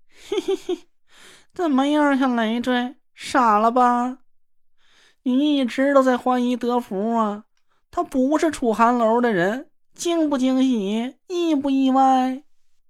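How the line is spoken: Gleeful laughing. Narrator (Chinese): 他忍不住 笑了起来

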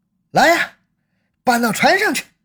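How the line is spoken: Shouting. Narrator (Chinese): 向那名小贩喊了一声

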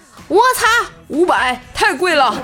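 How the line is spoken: Loud shout. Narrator (Chinese): 锤锤 大声喊道

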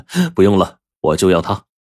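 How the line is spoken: Magnanimous, laughing. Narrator (Chinese): 大度的笑了笑说

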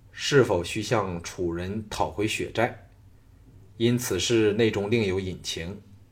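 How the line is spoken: Cold, calm, indifferent. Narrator (Chinese): 小盘冷冷地审视众人的反应，淡然说

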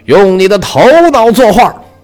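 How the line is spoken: Shouting. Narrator (Chinese): 他对梵高大吼说

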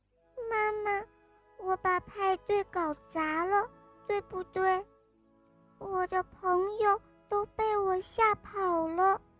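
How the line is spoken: Quiet, dejected. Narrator (Chinese): 爱哭公主她小声地说

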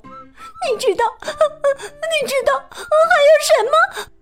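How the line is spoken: Sweet smiling. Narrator (Chinese): 他甜甜的笑着说

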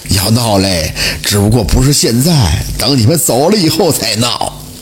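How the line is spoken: Laughing beggar. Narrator (Chinese): 那乞丐笑着说道

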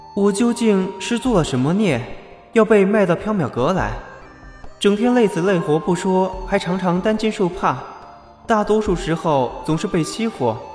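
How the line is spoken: Sighing. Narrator (Chinese): 唉，袁耀叹了一口气

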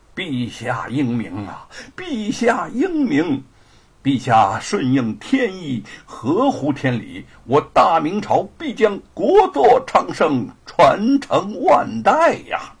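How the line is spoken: Laughing. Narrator (Chinese): 文征明府长大笑道

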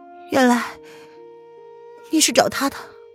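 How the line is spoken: Man's cool, pausing question. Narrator (Chinese): 男子……声音也微微一顿，随即才淡漠的开口问

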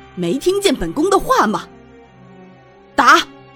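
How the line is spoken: Furious. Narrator (Chinese): 静妃怒极，再次道

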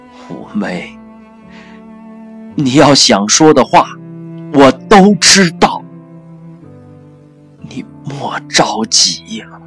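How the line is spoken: Father, loud. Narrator (Chinese): 父亲大声的对五姑说

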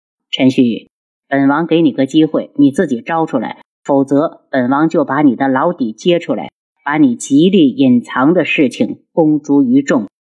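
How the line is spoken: Cold voice. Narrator (Chinese): 轩辕志冷声道

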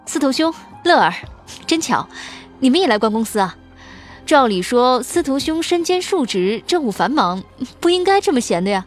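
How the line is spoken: Cheerful laughing speech. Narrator (Chinese): 笑道

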